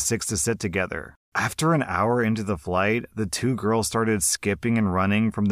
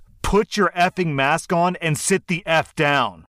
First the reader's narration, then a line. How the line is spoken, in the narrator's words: the attendant yells